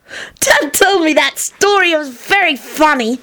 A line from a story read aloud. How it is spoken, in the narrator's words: Teddy cackled